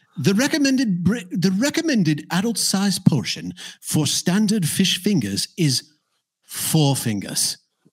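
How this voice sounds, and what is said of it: Weak put-on British accent. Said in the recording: “I should do it in a British accent ... Irish. ... I don't know how bad my British accent is”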